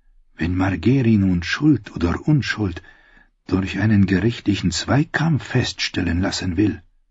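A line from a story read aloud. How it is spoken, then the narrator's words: Near whisper. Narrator (German): flüsterte sie beinahe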